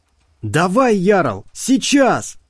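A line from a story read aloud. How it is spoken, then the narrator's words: Yelled. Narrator (Russian): заорал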